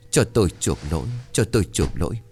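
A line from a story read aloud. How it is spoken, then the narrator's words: Muttering old man. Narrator (Vietnamese): ông lại lẩm bẩm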